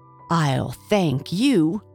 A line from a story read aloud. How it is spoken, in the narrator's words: she spluttered